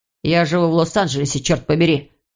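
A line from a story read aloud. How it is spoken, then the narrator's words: Snapping. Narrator (Russian): огрызнулся Иван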